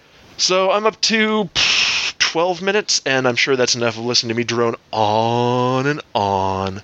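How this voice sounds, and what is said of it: Voice sounds sick. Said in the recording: “As you can probably tell by my voice, I may be getting sick.”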